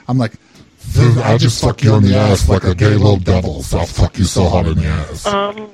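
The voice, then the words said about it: Exaggerated angry voice. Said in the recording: “I do an angry voice ... a gay guy do his angry, like an angry voice”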